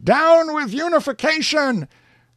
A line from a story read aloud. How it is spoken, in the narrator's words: Several persons shouted